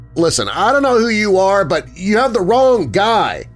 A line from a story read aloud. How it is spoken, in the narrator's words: shouted at the door